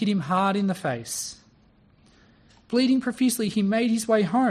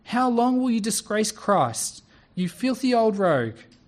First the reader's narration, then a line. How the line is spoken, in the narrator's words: A young man called out